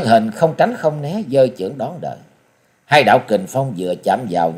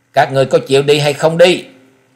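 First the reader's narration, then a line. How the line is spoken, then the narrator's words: Old man's tiger-like roar. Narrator (Vietnamese): Lão nhân chợt gầm lên một tiếng như mãnh hổ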